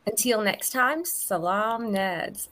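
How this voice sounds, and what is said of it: Put-on accent with flat vowels. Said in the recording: “They do this like flat thing with their vowels... in your accent”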